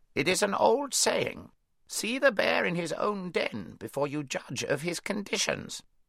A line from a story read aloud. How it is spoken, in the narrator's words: croaked the raven